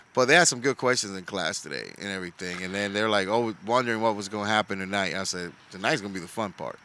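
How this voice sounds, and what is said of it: Hoarse, nearly lost voice. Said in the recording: “I'm tired. ... And I lost my voice. Hopefully, I'm surprised I'm still able to speak right now.”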